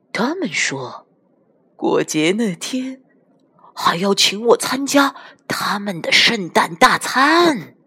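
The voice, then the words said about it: Lowered, confidential whisper. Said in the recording (Chinese): “压低了嗓音，用一种。透露机密大事的口吻， 小声地说”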